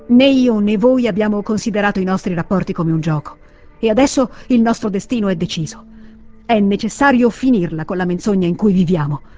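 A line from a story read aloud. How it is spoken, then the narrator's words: Plain. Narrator (Italian): disse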